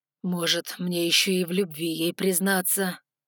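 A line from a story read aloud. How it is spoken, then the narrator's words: Growling voice. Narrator (Russian): В голосе Ноа отчетливо послышалось рычание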